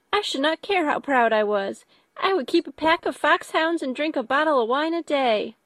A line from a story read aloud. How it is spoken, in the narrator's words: cried a young Lucas